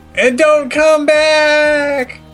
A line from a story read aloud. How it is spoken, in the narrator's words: Twilight screamed from the window